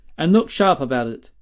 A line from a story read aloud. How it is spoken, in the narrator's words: he said sternly